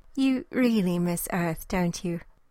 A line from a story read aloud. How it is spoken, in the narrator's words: Rose asked